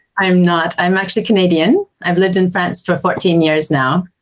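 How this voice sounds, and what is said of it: Non-French, Canadian-sounding accent. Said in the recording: “by your accent, you're not originally from France”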